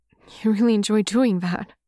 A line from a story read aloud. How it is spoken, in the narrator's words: Wayne blurts out